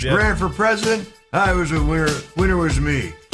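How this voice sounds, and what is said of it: Imitates another person's voice. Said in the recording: “best Joe Biden impression”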